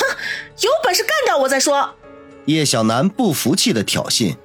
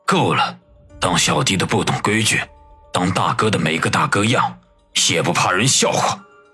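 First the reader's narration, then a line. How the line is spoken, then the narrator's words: Stern, deep rebuke. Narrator (Chinese): 孙卫良沉声喝道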